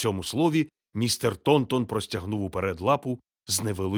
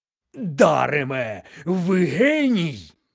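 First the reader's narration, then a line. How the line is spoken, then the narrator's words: Exclaimed. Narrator (Ukrainian): вигукнув містер Вудчестер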